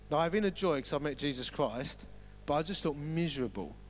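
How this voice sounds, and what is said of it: Romford accent, sounds grumpy. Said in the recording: “I am originally from Romford ... my accent means I sound grumpy”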